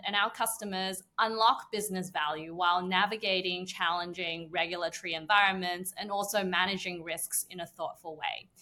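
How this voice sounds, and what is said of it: Australian accent. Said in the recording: “the accent might have given it away, but I'm originally from Sydney, Australia”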